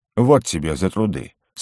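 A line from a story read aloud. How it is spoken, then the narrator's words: Dry. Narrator (Russian): сухо произнес угорь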